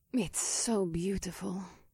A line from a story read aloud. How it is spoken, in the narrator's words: Cersei hissed